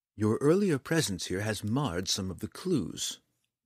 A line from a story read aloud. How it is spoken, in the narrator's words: Dove explained calmly, disarmingly, to the mayor